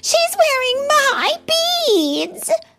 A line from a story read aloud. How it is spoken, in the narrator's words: cried Anastasia